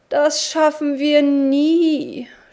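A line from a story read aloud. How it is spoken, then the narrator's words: Groaning man. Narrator (German): stöhnte der Hausherr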